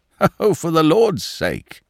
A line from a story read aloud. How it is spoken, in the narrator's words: cried the police detective, laughing